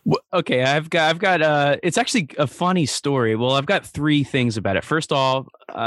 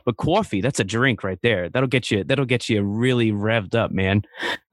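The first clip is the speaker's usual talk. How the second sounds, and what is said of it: Put-on New Jersey accent. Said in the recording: “just with the New Jersey accent”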